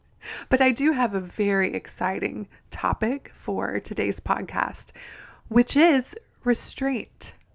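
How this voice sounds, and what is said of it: Hoarse, raspy voice cutting out. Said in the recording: “I am losing my voice ... I'm not sick ... I sound like Marge Simpson ... my voice cuts in and out”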